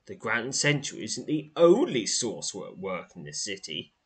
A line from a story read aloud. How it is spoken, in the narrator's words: he says in a somewhat triumphant tone